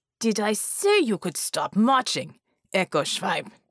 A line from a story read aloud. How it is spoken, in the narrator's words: snarled